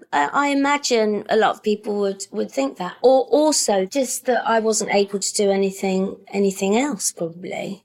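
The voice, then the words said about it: High-pitched voice, working-class accent. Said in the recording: “my voice is it's a bit high, isn't it? It's always been a bit high... you've got a high voice in a working class accent”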